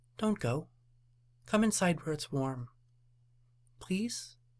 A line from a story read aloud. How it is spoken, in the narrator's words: In a soft voice, said